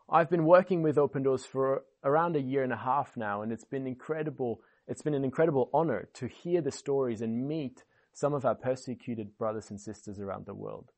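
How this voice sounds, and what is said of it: Mixed, hard-to-place foreign accent. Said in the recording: “in case you're a bit confused already about my accent”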